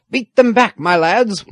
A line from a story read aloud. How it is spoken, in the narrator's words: one of the smugglers was shouting